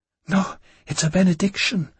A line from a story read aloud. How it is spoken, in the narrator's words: Gabrielle gasped